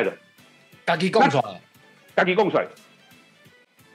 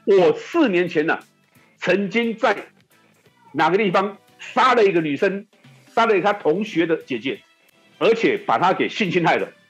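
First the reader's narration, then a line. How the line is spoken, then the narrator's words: Shouting. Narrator (Chinese): 就喊说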